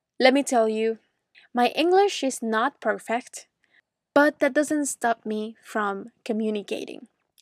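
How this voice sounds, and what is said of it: Venezuelan accent in English. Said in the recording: “I was born in Caracas, Venezuela. So maybe you already noticed my accent.”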